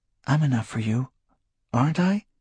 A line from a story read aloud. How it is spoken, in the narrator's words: she whispered presently